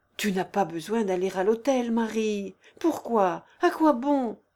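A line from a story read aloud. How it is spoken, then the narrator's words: Pleading. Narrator (French): supplia-t-il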